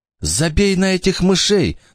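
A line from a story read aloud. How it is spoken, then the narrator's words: Trembling voice from floor. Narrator (Russian): дрожащим голосом откликнулся Маркус откуда-то с пола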